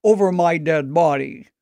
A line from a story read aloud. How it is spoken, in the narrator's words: the principal sternly told him